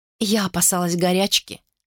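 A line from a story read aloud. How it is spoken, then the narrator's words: Plain. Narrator (Russian): сказала она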